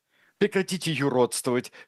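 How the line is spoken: Wife exclaiming. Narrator (Russian): воскликнула жена

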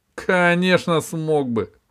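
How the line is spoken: Laughing. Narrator (Russian): рассмеялся Синдбад

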